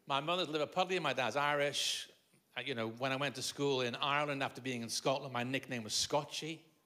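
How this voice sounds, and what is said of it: Mixed Liverpool, Scottish and Irish accent. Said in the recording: “born in Liverpool, but spent my childhood in Scotland and my teenage years in Ireland, and then the last 40 years in England. So my accent is that reason”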